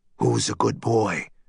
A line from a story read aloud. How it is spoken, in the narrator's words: he whispered to his friend, a ritual of theirs